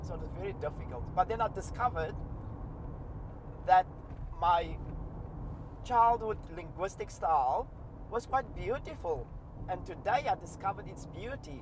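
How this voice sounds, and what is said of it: Educated South African accent. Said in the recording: “you're South African within minutes ... So I don't think I've lost my South African accent ... it's probably a educated South African accent, not my Cape Flats linguistic style”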